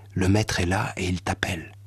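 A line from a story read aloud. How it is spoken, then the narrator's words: Low voice. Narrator (French): lui dit à voix basse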